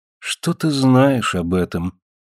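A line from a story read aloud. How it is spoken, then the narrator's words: Sad, convinced answer. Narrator (Russian): грустно и убежденно ответила Гетера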